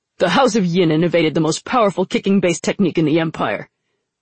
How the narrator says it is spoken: Najah snapped

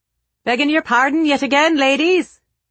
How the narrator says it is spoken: hollered Mr

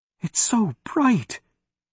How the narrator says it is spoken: whispered

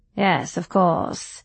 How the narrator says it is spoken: he said dryly

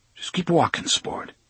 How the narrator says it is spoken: he said in an uneasy voice

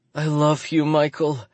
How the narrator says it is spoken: she cries

